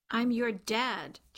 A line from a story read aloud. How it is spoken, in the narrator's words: Charlie snapped at Taya